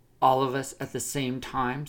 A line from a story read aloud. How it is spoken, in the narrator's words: said Big Bo